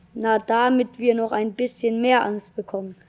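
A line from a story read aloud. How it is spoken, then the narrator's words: Plain. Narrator (German): sagte Vicky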